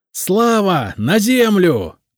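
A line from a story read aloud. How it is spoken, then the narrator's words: Shout. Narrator (Russian): крикнул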